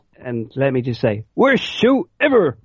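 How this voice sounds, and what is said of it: Imitates a cartoon character's voice. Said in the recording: “terrible impression”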